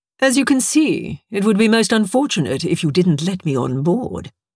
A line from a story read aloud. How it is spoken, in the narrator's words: he said smoothly